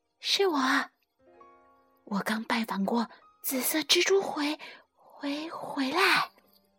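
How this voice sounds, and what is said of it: Quiet whispered voice. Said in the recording (Chinese): “小声说”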